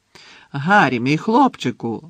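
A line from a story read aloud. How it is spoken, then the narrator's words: Exclamation. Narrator (Ukrainian): вигукнув Слизоріг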